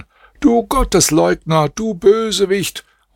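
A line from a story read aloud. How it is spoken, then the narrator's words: Group shouting. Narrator (German): schrien ihn an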